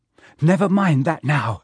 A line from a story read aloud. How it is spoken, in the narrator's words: said Harry breathlessly